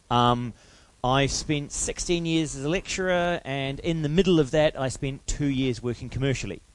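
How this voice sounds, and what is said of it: New Zealand accent. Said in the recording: “I'm a New Zealander, which is why I have a slightly strange accent.”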